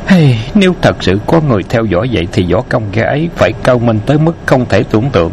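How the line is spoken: Sighing. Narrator (Vietnamese): Bạc Phong Hàn thở dài nói

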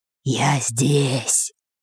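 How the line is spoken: Chilling whisper. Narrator (Russian): прошептал чей-то леденящий душу голос

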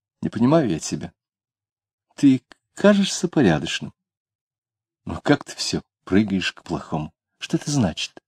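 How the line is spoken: Puzzled, sad girl. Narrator (Russian): девушка недоуменно, печально говорила

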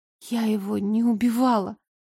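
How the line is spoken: Tearful whisper. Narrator (Russian): прошептала я, глотая слезы

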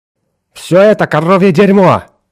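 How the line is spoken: Yelled. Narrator (Russian): завопил он

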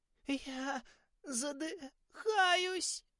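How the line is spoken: Moaning schoolgirl. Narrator (Russian): простонала Кармен, одна из старшеклассниц

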